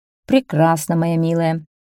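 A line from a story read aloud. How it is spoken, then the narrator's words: Plain. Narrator (Russian): сказал король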